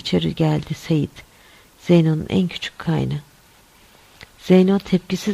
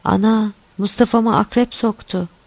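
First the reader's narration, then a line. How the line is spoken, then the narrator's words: Crying out. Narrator (Turkish): diye haykırdı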